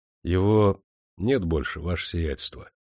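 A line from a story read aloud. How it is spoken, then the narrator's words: Quiet. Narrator (Russian): тихо сказал капитан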